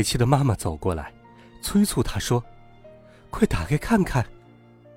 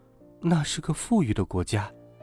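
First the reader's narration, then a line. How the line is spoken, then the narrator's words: Quiet voice. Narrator (Chinese): 他小声说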